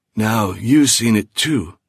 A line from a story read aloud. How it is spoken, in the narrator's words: he wheezed